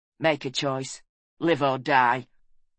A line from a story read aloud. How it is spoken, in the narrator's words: he said coldly